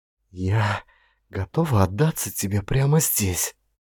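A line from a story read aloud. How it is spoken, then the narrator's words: Whispering. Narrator (Russian): она прошептала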